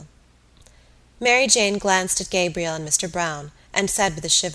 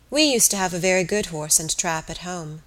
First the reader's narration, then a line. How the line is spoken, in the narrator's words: said Aunt Julia sadly